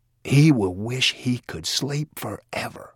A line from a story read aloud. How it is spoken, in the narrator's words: Wiley whispered